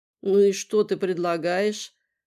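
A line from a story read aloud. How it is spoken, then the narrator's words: Sleepy question. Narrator (Russian): спросила она сонным голосом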